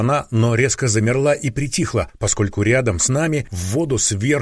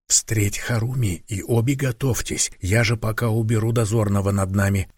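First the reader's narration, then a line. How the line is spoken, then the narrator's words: Barely audible whisper. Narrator (Russian): едва слышно, практически одними губами прошептал я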